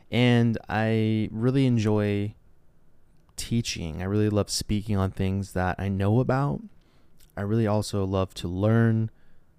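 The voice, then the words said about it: Smooth radio voice. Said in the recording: “I've been told I have a radio voice.”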